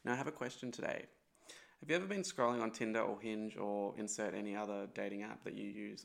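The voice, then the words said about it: Phlegmy, congested voice. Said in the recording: “my voice is still a little bit phlegmy and gross”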